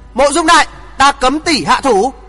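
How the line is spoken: Loud shout. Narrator (Vietnamese): Thượng Chí hét lớn

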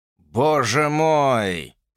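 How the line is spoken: Moaning. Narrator (Russian): простонал он

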